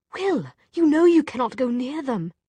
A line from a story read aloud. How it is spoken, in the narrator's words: Jem said desperately